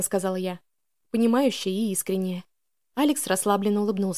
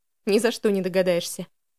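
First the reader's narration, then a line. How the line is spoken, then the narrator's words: Young man's smirk. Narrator (Russian): хмыкнул парень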